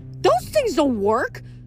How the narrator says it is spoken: Nike yelled

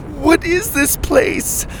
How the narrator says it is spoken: Lainey cried

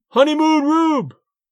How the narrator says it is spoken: A wag of a fan yelled from the bleachers

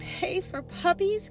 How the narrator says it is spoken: gasped Anita

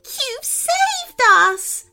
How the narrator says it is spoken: squealed the girl with delight

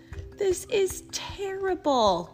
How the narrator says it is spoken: cried Verdi

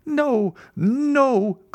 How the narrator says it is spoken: cried Bertuccio

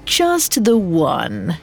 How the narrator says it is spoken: he chuckled

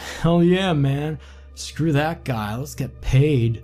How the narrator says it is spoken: drunkenly slurred

